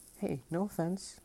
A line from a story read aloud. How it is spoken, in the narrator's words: Leo said